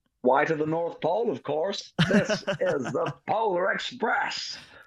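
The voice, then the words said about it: Tom Hanks impression. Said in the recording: “Is that your Tom Hanks impression?”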